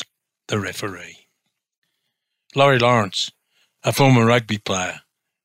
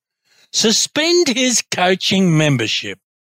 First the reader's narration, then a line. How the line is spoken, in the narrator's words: snapped some older swim coaches